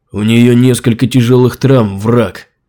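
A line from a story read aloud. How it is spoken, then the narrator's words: Angry, through teeth. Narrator (Russian): Зло процедил Сират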